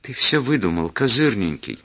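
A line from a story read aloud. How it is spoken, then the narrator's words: Trembling babble. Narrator (Russian): дрожащим голосом пролепетала Жюли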